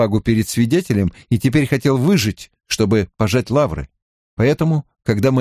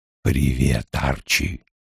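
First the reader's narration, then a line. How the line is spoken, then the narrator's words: Whispering. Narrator (Russian): Тоже шепотом отозвался Сол Пензер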